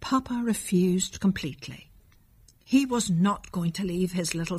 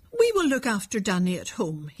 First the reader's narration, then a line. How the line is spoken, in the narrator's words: said firmly